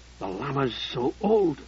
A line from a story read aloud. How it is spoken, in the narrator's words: Collier whispered